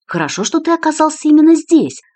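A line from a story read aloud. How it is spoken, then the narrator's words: Joyful. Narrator (Russian): радостно сказал де Фигейредо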